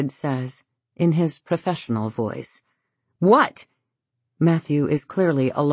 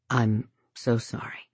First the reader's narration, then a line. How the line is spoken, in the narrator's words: David says quietly